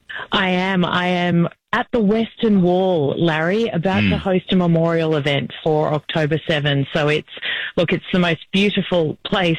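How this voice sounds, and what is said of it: Australian accent. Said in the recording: “I can't quite pick up the accent. Are you from New Jersey ... it's very distinctive ... Australia”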